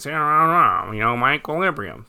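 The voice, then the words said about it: Imitates another person's voice. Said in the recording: “my Ace Frehley impression”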